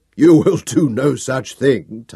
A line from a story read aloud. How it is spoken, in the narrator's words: Tanis laughed at me